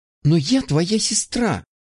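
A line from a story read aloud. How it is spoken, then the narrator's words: Exclamation, abruptly cut off. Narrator (Russian): воскликнула Анна и тут же осеклась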